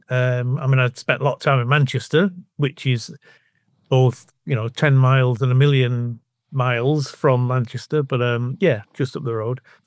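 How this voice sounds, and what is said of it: Northern English Bolton accent. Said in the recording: “I kind of recognise the accent ... From Bolton, really”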